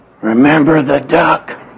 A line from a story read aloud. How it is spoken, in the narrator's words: she whispered to him